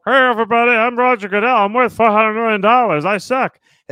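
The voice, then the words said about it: Poor impression of another person's voice. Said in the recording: “I didn't say it was going to be a good impersonation ... That's more Dan Campbell ... Worse ... It's more Eli Manning ... it's terrible”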